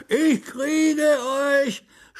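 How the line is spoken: Booming shout. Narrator (German): schrie der Unterwasserkönig ihnen mit dröhnender Stimme hinterher

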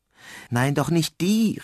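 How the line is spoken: Owl calling out. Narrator (German): rief die Eule

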